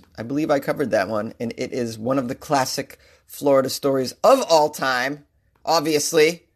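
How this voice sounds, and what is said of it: Boston accent. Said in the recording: “You can tell you're from Boston, not because of your accent”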